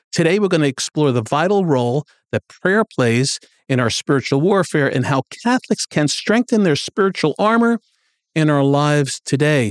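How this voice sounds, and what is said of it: East Coast American accent. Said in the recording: “There's your new East Coast accent ... You recognized it immediately that I'm East Coast ... the accent maybe.”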